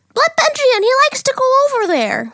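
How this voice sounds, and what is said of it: Imitates another person's voice. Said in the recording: “Not how Zane sounds. ... That's my imitation voice for people.”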